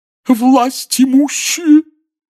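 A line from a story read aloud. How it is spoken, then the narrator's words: Muffled sobbing proclamation. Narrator (Russian): глухим рыдающим голосом возвестила Трелони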